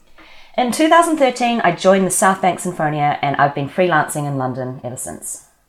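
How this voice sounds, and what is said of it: New Zealand accent. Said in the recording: “As you can probably tell from my accent, I'm from New Zealand”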